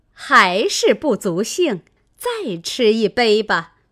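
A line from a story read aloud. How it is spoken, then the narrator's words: Laughing. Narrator (Chinese): 凤姐笑道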